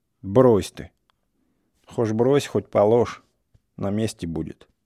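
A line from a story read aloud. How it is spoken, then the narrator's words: Calm old man. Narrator (Russian): старик говорил спокойно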